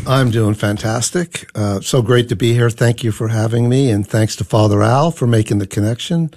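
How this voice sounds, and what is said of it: Irish-sounding Newfoundland accent. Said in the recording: “I love that Irish accent. ... from Newfoundland.”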